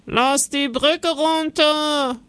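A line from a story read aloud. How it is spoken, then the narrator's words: Sudden call, guard. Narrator (German): ruft plötzlich ein Wachmann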